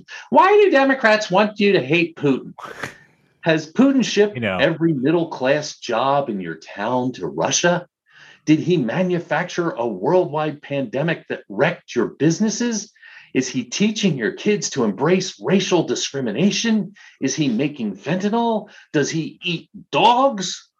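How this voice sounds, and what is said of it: Imitates another person's voice. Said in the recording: “Tucker Carlson ... I feel like I should do the impersonation.”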